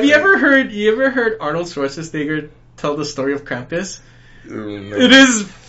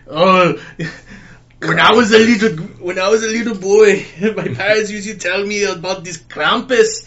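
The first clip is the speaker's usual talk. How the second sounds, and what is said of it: Imitated Austrian accent. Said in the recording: “in his Austrian accent”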